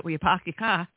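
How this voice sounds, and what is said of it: Put-on Boston accent. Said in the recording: “I got that Boston accent”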